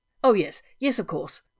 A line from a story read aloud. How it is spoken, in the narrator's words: Rodney said